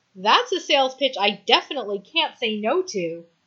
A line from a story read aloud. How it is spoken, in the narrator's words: Allison says, laughing